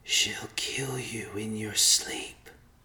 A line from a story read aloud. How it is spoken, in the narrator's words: the whispers in the fog said